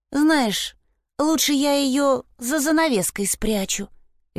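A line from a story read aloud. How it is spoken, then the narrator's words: Sighing. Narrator (Russian): Вильма вздохнула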